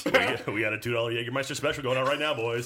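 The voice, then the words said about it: Strip club DJ announcer voice. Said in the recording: “strip club DJ voice ... ad lib for the rest of the podcast random strip club DJ stuff”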